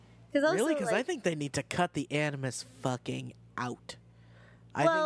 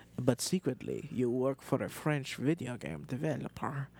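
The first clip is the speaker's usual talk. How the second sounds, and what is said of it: Poor attempt at French accent. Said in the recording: “This is not a French accent.”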